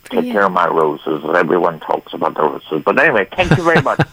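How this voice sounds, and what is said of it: Irish accent. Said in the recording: “I love your accent. ... I'm from Ireland. ... don't lose that accent.”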